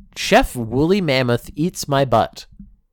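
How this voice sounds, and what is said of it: Loud, yelling reading voice. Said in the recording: “I'm reading this so loudly, ... just yelling”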